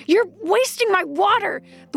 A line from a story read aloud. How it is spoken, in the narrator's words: the woman yells